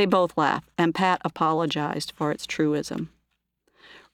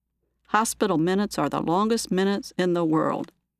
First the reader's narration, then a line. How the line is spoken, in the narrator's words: he said